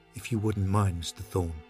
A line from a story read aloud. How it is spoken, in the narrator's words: said Jennings quietly